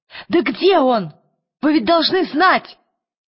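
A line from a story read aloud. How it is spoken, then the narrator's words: Shouted. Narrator (Russian): крикнула Лира шеф-повару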